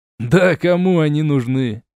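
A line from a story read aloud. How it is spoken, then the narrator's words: Laughing. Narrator (Russian): рассмеялся Кутузов темного фронта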